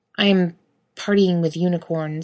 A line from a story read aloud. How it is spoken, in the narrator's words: he grumbles, half into his pillow